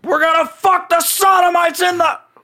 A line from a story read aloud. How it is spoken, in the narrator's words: Nick Maxon yelling